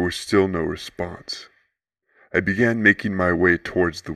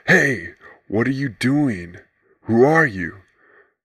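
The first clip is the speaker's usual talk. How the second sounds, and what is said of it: Confused voice. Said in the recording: “in a confused voice.”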